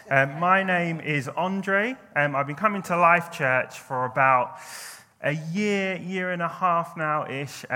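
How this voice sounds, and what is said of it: London English accent. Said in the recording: “As you can tell from my accent, I'm not a northerner. I'm originally from London.”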